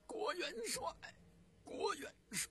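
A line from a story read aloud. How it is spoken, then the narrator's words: Tearful loud calling. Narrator (Chinese): 朱元璋一愣，随即泪如雨下，……大声的呼喊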